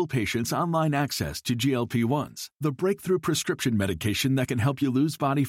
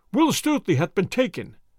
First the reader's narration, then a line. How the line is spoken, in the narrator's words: cried they